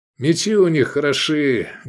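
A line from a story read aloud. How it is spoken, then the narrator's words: Loud. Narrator (Russian): громко сказал Искандер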